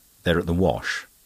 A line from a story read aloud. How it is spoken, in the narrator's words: Denis replied rather curtly